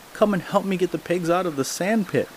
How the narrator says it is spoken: he called out

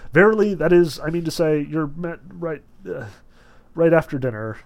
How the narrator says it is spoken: His face beamed, and not knowing what he was saying, he began to murmur

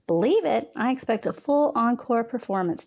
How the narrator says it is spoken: Tabitha teased, her laughter

